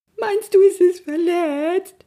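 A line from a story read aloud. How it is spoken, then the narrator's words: Sobbing. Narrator (German): schluchzte er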